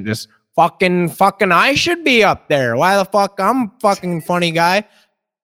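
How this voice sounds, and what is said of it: Put-on Canadian accent. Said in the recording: “the Canadian accent”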